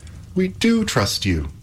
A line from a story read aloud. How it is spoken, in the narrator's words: cried Epimetheus and Pandora, both in one breath